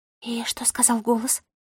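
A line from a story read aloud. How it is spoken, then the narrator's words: Whisper. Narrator (Russian): прошептала Мира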